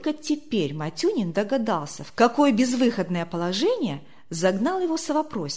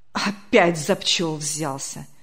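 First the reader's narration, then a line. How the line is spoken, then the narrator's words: Annoyed grumble. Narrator (Russian): с досадой проворчал председатель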